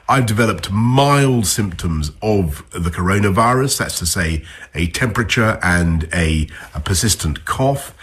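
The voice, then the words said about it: British English accent. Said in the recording (French): “l'accent britannique”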